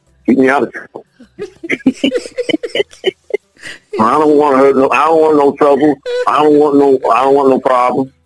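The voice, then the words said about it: American country accent. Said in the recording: “That's that country coming out. ... this country accent”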